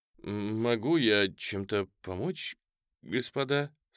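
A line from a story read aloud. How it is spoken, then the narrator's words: Trembling question. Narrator (Russian): спросил он дрожащим голосом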